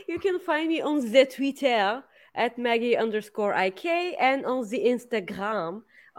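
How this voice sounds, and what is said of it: Put-on French accent. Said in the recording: “Where does that French accent came from?”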